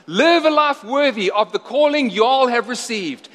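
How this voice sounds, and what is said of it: Poor put-on Southern American accent. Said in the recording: “If Paul was from the south... Excuse my terrible accent.”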